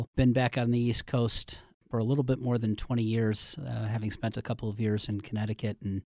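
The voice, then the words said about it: Slight Midwest accent. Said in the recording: “you can hear a little bit of my Midwest accent”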